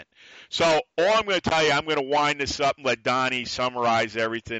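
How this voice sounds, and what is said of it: New York accent. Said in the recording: “me being still a New Yorker, it's the attitude. It's the voice. The accent... We love your voice, your accent.”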